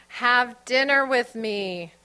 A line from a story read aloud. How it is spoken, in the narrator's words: Joe yelled, cupping his hands around his mouth